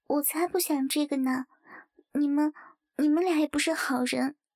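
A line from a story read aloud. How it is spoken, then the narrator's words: Quiet voice. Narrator (Chinese): 陈静低下头小声道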